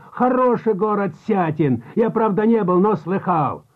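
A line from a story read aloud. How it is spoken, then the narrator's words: Shouting. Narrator (Russian): опять закричал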